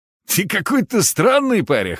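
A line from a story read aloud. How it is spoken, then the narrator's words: Man's snort. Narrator (Russian): хмыкнул мужик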